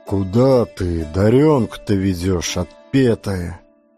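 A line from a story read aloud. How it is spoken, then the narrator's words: Muffled question. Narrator (Russian): как-то глухо спрашивает ее Никешка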